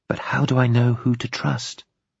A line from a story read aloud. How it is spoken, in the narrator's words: She whispered insistently